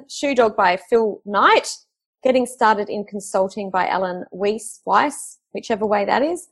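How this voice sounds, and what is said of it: Strange, mixed-up accent. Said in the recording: “I have a strange accent, apparently. ... I keep getting told my accent is very mixed up.”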